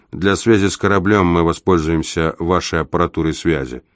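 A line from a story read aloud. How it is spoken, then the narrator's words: Bored tone. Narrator (Russian): тем же скучающим тоном я добавил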